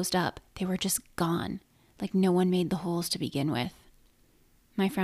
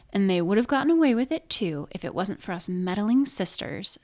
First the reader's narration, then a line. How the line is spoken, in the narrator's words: Stephanie exclaimed